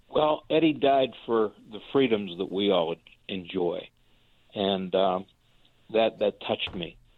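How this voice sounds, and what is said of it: Emotional, choked-up voice. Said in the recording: “I'm sorry, I'm a little emotional here.”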